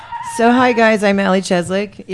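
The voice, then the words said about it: Deep, raspy smoker's voice. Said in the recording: “Yes, I have that deep voice. That's what you get for smoking and hacking on the air.”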